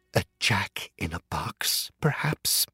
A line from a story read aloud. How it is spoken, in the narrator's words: she whispered